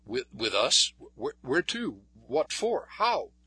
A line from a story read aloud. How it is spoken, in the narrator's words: He stammered